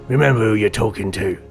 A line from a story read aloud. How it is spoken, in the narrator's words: Silas snarled